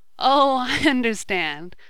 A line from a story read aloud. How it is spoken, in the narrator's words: laughed Ned